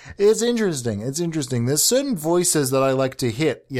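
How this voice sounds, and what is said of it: Usual voice. Nothing is said of it.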